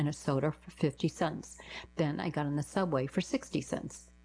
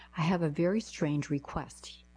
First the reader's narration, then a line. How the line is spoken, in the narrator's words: I said